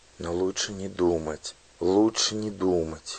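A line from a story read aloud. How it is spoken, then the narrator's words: Anxious whisper. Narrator (Russian): шепнула она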